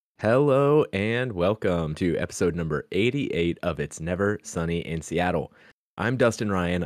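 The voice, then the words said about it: Nasal, congested voice. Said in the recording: “I'm like a little bit under the weather today, so I'm not sure if I sound kind of like nasally... You always sound like you have a cold.”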